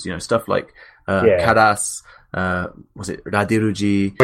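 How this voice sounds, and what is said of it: Put-on French accent. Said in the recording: “Why are you doing a French accent?”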